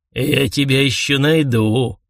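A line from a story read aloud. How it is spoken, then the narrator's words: Hoarse voice. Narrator (Russian): хрипло сказал хозяин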